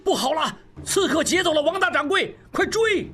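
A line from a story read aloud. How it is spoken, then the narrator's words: Loud shout. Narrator (Chinese): 大喊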